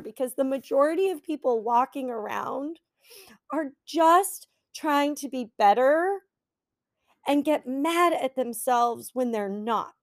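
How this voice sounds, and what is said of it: Emotional, choked-up speaking voice. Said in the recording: “I'm getting a little emotional here”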